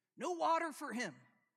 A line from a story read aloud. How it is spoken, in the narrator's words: the soldier yells